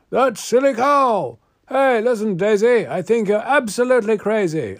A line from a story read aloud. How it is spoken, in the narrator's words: This fellow, standing in the crowd, raised up his voice and yelled aloud